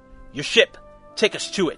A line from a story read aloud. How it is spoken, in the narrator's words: he growled at the doctor